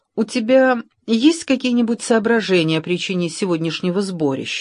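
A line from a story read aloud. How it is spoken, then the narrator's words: Plain question. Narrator (Russian): спросила она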